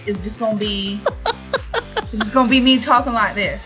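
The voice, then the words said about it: Put-on country accent. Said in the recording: “my whole country accent, just the whole story”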